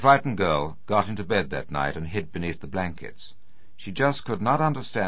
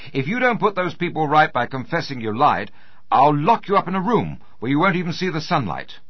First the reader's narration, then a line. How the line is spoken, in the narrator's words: Her mother was so angry because her daughter had gone to the cova that she shouted at her